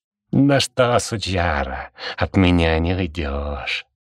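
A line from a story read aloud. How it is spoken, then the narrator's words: Growl right at ear. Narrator (Russian): прорычал кто-то над самым ухом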